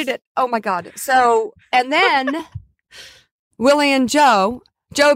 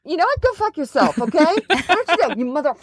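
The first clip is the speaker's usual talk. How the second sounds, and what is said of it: Impression of an angry boss. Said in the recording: “doing an impression of Joe on the phone”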